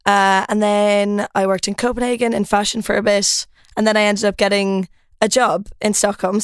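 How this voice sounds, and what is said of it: Irish accent. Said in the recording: “I'm Irish. Um, I don't know if you can tell from the accent. A lot of Swedes think that I'm Australian”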